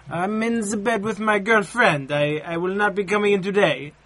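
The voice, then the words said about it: Convincing put-on foreign accent. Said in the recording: “actually got an accent right? ... Yeah, that was actually good.”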